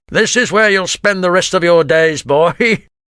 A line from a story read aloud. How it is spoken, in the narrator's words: laughed Grimlard cruelly